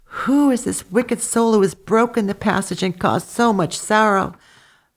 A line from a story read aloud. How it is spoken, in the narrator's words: Nella sobbed and wept bitterly and said to herself